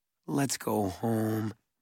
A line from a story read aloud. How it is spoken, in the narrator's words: Mallory said